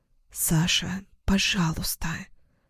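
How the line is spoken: Whisper. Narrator (Russian): прошептала

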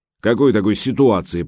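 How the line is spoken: Deep bass voice. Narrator (Russian): пробасил Гучко

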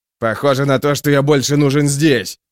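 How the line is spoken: Barked. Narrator (Russian): рявкнул Магвир

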